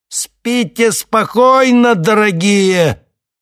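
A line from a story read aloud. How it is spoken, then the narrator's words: Shouted. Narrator (Russian): Один из парней обернулся и прокричал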